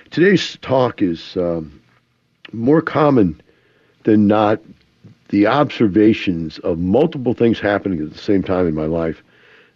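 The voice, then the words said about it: Congested voice with a cold. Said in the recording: “I have a little bit of a cold ... Allergies of some kind is really messing with me, so I got a little bit of a runny nose”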